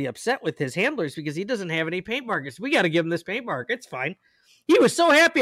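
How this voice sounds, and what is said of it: Usual voice. Nothing is said of it.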